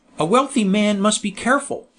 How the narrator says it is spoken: said Blessing cheerfully

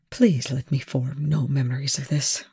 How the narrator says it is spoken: Rush murmured

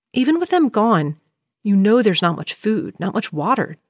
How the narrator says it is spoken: Jim says

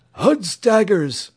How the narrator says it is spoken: wheezed the knight

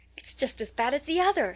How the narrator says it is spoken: she cried

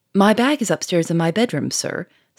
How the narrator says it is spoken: Sonia interrupted quickly

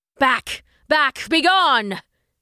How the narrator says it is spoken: he roared

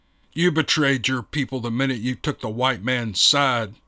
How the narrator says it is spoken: snarled Mika

